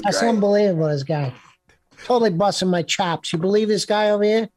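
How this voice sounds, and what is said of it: Imitates another person's voice. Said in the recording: “his Joe Pesci impression”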